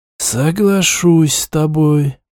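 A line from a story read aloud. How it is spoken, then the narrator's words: Drawn out after pause. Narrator (Russian): после некоторой паузы протянул Улиат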